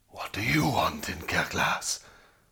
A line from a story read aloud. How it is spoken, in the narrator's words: Surprised by this greeting, the lion roared